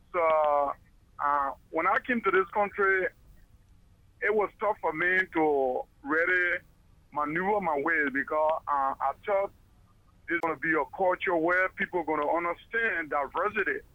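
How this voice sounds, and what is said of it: Liberian English accent. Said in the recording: “Originally, I'm from Africa, Liberia... I think you can understand my accent.”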